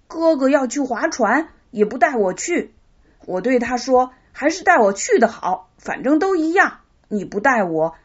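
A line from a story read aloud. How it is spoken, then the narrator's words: Angry shout. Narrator (Chinese): 巴普利克气恼的喊道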